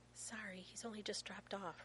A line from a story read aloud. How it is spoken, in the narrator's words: Rodney whispers